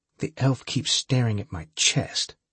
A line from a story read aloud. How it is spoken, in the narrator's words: Holly said coldly